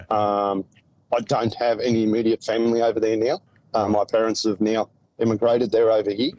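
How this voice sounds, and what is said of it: Thick Australian accent. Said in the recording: “now you've got this thick Australian accent”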